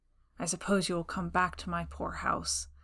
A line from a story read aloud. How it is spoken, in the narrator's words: he muttered surlily